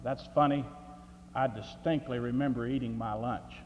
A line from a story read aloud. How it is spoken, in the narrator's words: perplexed ... muttered